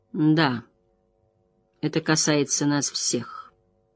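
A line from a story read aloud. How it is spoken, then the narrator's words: Grim. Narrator (Russian): мрачно сказала Морейн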